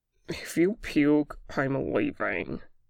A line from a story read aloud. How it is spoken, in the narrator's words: Boston slurred